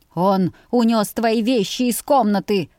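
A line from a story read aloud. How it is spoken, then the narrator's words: Roar like wounded beast. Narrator (Russian): взревел отец с раненым зверем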